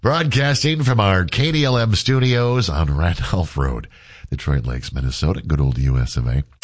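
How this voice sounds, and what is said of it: Congested, stuffy nasal voice. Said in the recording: “Battling a little bit of congestion here this morning ... my best Darth Vader impersonation ... Got a little bit of a congestion overnight ... Why does he sound like he's got cotton tips skipped up his nose? Because I can't breathe”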